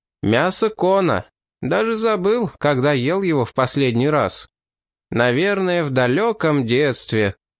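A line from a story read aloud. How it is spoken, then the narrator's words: Loud declaration. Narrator (Russian): Сфин громко произнес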